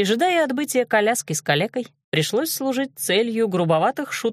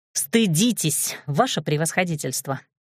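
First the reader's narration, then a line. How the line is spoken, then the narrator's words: Curt, irritated. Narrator (Russian): бросила раздраженно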